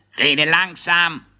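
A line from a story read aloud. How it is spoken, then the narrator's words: Snapping. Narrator (German): schnauzte ihn Thaddäus an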